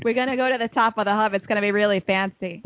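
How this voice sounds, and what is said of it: Put-on Boston accent. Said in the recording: “I can talk with a Boston ... Accent ... I can't do the accent either.”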